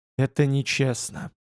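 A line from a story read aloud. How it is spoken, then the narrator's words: Choked whisper. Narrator (Russian): прошептал, давясь собственными словами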